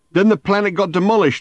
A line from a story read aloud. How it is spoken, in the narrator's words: shouted